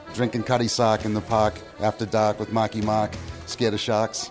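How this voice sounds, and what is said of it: Real Boston accent. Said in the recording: “the real Boston accent”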